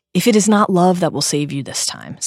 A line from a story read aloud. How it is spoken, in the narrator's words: said Voldemort